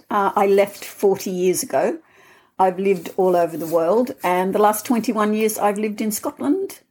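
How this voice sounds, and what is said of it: Australian accent. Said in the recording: “I'm Australian, as you can hear in my accent.”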